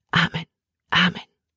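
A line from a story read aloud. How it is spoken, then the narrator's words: Whispering. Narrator (German): flüsterte Emma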